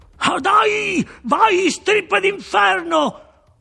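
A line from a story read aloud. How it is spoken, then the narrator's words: Yelled. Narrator (Italian): urlò Webster Shaw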